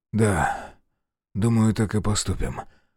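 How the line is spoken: Weary exhale. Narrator (Russian): устало выдохнул Грей

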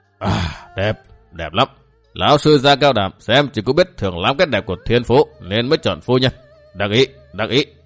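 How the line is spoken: Breathless, tongue-clicking. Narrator (Vietnamese): Bằng Thiên Lợi rít chân khí như thể đang ngộp thở, gã chặt lưỡi nói

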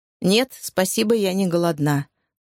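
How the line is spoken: Dry, clipped maid. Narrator (Russian): сухо процедила служанка

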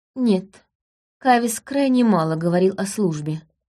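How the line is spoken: Plain. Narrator (Russian): ответила она

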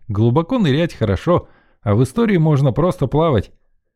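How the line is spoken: Short laugh. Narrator (Russian): хохотнул я

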